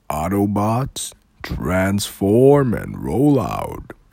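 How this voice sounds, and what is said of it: Optimus Prime character impression. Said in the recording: “I can do a Optimus Prime ... Do Optimus Prime ... That was actually alright.”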